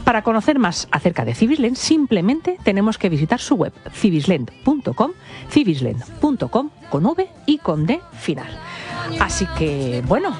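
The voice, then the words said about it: Polished radio announcer voice. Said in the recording (Spanish): “Qué bien lo has anunciado. ... La voz de locutora.”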